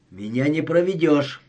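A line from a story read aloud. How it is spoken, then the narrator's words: Sharp retort. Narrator (Russian): резко бросила Рея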